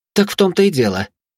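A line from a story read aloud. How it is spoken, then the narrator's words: Exclamation. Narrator (Russian): воскликнула Анастасия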